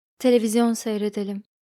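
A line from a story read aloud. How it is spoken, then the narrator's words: Dry flat voice. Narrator (Turkish): dedi kuru bir sesle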